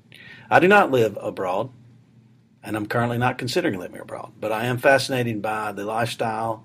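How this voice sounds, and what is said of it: Southern US accent. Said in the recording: “I am from Alabama, as you might be able to tell from the southern accent.”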